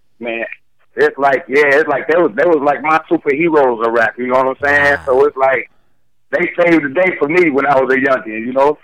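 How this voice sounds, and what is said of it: Georgia Southern US accent. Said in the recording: “I'm hearing your accent, right? And I know that's some Georgia shit.”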